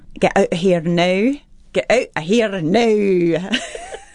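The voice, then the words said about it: Scottish accent, rolled R's. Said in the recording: “sit down with a Scottish woman and just go through some of the words ... they sound all their R's ... Is there a sentence that you have that gets you into the accent?”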